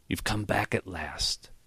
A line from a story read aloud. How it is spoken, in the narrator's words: he whispered